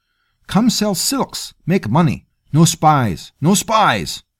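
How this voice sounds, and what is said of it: Quavering voice, thick foreign accent. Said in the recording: “The captain's voice was quavering, thick with Farthi accent”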